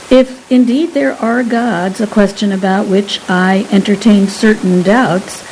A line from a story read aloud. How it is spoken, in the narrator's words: Lythanda observed calmly